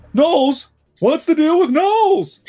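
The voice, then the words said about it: Jerry Seinfeld impression. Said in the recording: “Jerry Seinfeld... I can do an impression of that”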